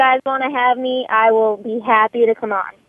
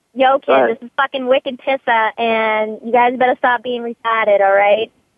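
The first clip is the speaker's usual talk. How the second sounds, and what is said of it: Massachusetts accent. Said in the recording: “I don't hear a Massachusetts accent ... You want to hear it real quick?”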